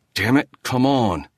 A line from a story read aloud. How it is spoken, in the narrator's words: he muttered